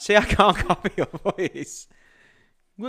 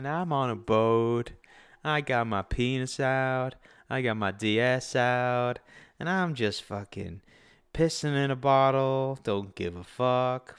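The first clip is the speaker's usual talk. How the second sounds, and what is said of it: Imitates another person's voice. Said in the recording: “a good impression of Bijan ... Bijan's the laid back guy”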